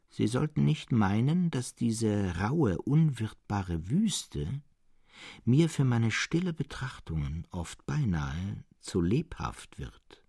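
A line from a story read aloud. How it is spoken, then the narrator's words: In a changed tone. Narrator (German): begann Serapion mit verändertem Ton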